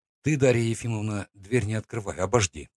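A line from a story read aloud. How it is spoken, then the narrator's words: Quiet. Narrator (Russian): сказал я тихо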